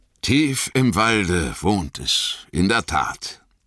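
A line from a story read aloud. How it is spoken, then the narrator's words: Sighing, wistful. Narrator (German): sagte Aragorn, seufzend, wie wenn eine Erinnerung ihn bewegte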